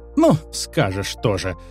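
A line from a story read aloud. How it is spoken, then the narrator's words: Laughing, suddenly cheered. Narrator (Russian): засмеялась женщина, разом пободрев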